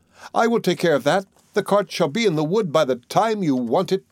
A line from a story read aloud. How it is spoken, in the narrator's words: cried Tom